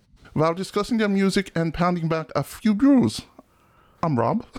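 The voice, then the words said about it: Put-on German accent. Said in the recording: “Are you going to do that the whole time? ... it was in German, and I have a German heritage. Listening to it for an hour and a half, I started speaking like this”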